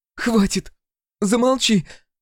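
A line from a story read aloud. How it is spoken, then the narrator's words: Sharp cry. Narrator (Russian): вскрикнула Акулина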